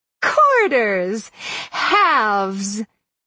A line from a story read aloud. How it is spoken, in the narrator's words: she exclaimed in delight